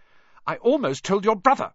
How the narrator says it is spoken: Hermione snapped

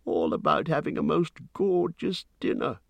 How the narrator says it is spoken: he grumbled

